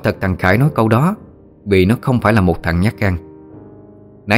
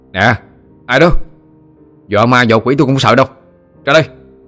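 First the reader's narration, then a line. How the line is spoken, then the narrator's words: Irritated boy shouting. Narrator (Vietnamese): Thằng Khải bắt đầu bực mình, nó quát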